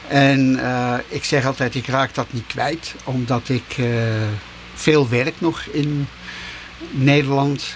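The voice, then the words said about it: Dutch accent from around Utrecht. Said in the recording (Dutch): “ik heb natuurlijk een verschrikkelijk Nederlands accent... de meeste mensen horen ook direct dat ik uit de buurt van Utrecht kom”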